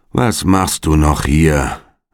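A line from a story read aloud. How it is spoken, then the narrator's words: Bored call. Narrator (German): rief er mit gelangweilter Stimme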